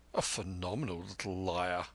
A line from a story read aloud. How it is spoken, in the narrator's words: muttered Bennett